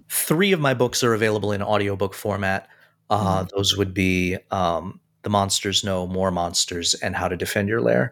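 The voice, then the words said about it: Hoarse, failing voice. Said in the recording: “I'm losing my voice here”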